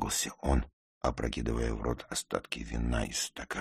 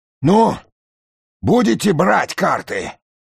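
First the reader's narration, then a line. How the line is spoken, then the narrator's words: Angry question. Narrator (Russian): уже зло спросил он меня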